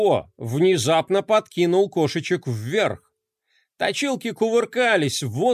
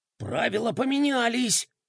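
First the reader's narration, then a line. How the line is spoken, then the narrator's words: Shocked whisper. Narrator (Russian): шепотом комментировал шокированный Бублик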